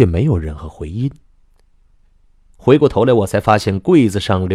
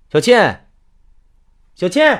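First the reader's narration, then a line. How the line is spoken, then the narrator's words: Loud calling. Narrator (Chinese): 我大声叫着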